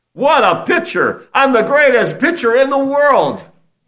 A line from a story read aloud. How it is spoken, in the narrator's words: cried